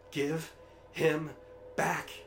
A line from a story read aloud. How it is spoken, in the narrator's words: she cried